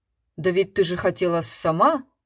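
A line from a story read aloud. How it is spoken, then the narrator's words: Embarrassed mumble. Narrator (Russian): смущенно бормотал он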